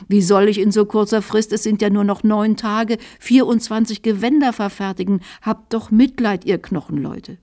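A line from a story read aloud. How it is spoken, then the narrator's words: Whining lament. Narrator (German): jammerte der Gesell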